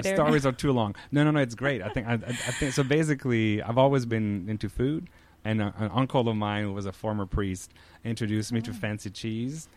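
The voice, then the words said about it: French Canadian accent. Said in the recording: “if you picked up on the accent, I'm a French Canadian. I'm from Quebec.”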